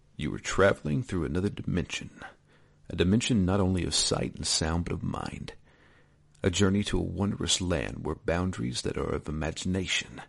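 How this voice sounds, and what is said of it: Rod Serling impression. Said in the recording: “I need to do this in a voice ... channeling my Rod Serling voice”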